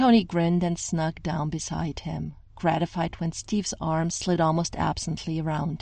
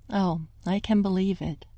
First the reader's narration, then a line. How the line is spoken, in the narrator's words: Steve replied